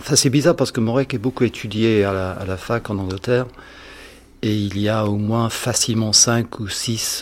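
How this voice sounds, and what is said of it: Slight British accent in French. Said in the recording (French): “votre léger accent vos origines britanniques”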